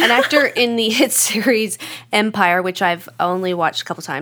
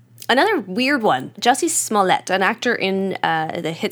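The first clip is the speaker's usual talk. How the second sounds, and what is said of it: Put-on French accent. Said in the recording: “I don't know why I said that in a French accent.”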